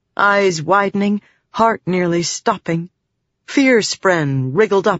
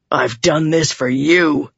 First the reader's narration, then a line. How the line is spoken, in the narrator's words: he growled